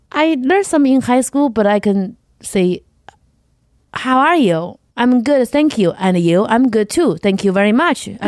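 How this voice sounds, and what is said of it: Non-native English accent. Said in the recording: “my accent is just what's stopping me”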